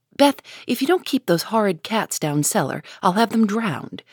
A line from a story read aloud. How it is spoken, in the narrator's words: exclaimed Meg, angrily